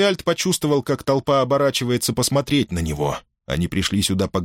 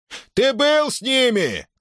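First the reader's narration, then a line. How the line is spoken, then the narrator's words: Shout from crowd. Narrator (Russian): крикнул кто-то из толпы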